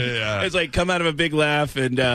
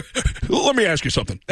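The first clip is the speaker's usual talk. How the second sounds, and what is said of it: Tom Snyder impression, coming out of laugh. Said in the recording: “do a Tom Snyder impression. ... It's just you come out of a big laugh and go right into a question.”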